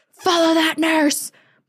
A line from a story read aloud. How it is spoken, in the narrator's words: mom gained enough consciousness to point at her and shout at my dad